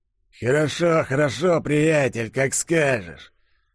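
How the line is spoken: Hoarse rasp. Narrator (Russian): прохрипел лицо со шрамом

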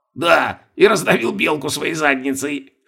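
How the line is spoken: Snort. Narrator (Russian): хмыкнул Бальтазар

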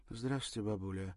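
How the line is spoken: Sad smiling greeting. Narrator (Russian): грустно улыбнулась Ирина

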